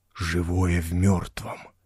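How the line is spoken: Whisper. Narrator (Russian): прошептал док Блейн, на его лбу выступил холодный пот

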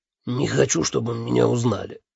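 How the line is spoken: Grumbled. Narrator (Russian): буркнул он

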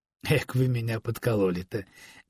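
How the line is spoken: Involuntary laughing. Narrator (Russian): невольно рассмеялся я

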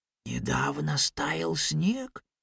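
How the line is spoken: Quiet. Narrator (Russian): ответила так же тихо Тереза

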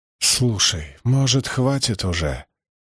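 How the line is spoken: Weary. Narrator (Russian): устало проговорила

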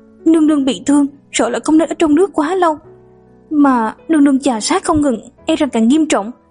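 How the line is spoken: Frightened. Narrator (Vietnamese): Cung nữ sợ hãi

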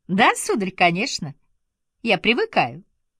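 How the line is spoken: Laughing answer. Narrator (Russian): Чтобы доставить ему удовольствие, я ответила, смеясь

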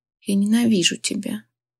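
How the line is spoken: Quiet whisper. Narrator (Russian): Я схлипнула и зарылась лицом в подушку, тихо прошептала

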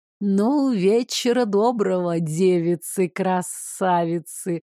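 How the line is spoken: Slightly hissing voice. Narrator (Russian): произнес он чуть шипящим голосом

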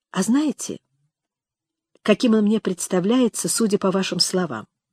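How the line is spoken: Warm, cordial question. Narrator (Russian): спросила она сердечным тоном

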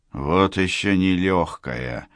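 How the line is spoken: Warden's heavy sigh. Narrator (Russian): тяжело вздохнул надзиратель

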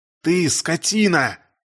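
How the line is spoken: Hissed. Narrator (Russian): прошипел Рэп

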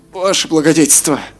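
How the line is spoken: Moaning. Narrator (Russian): Простонал Антар

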